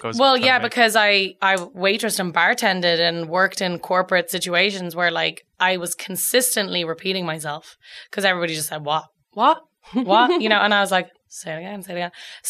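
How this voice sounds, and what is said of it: Irish accent. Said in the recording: “try to not lose my accent. But the more that I have to drink, and especially when I'm with Irish people, ... the thicker it gets.”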